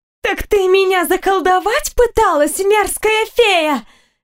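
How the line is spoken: Sudden exclamation. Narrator (Russian): воскликнула она вдруг

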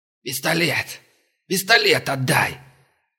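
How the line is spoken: Angry wheeze. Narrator (Russian): злобно просипел тот

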